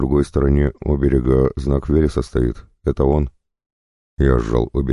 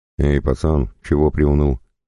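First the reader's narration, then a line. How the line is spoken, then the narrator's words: Chuckling. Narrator (Russian): хохотнул Никоша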